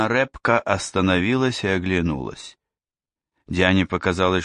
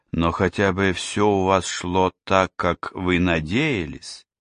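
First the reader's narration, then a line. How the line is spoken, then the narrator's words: Softer question. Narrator (Russian): Диана спросила напоследок уже более мягко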